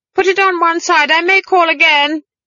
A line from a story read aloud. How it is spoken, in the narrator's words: she shouted